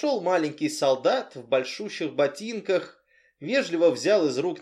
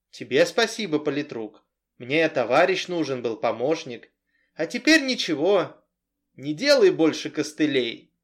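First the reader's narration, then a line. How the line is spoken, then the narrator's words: Stern. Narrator (Russian): строго сказал Ермаков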